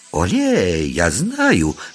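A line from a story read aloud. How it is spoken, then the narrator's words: Exclaimed, woman. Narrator (Russian): воскликнула леди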